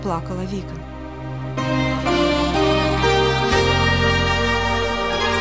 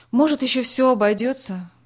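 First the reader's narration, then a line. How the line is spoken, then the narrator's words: Father sighing. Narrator (Russian): вздохнул отец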